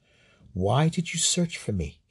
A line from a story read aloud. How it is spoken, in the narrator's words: said softly